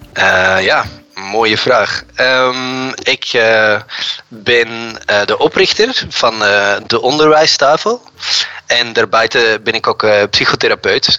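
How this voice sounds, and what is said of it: Belgian Dutch accent. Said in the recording (Dutch): “je hebt een schitterend Belgisch accent”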